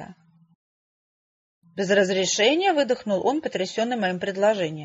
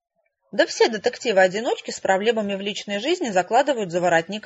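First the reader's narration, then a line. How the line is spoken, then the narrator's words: Plain. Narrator (Russian): ответила я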